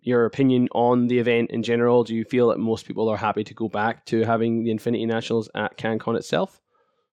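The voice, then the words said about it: Speaking with a cold. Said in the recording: “I've got a bit of a cold, so my mouth's not working properly”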